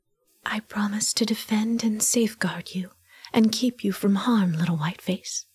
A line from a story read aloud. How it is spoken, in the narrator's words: whispered, fierce and low